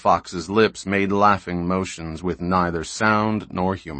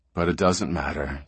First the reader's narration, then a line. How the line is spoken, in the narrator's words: said the fox softly